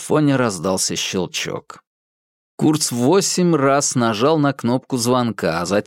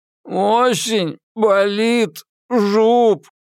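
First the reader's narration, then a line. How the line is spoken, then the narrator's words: Moaned, whimpering loudly. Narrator (Russian): простонал Курц и громко захныкал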